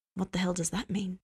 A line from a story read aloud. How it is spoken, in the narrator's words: Dean said softly